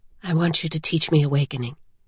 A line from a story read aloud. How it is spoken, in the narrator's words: Vivenna whispered